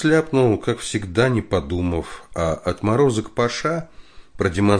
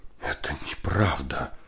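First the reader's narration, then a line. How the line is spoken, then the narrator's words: Whispering woman. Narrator (Russian): прошептала жена Потапова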